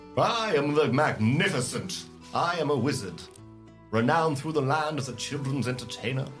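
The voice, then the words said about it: Posh put-on character accent. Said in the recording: “I don't know why I put on that accent ... It's less posh ... It's pretty posh.”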